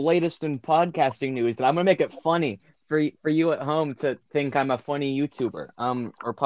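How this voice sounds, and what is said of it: Usual voice. Nothing is said of it.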